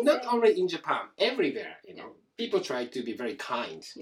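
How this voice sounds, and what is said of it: Strong Japanese accent in English. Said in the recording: “You speak English with a strong accent ... strong Japanese accent”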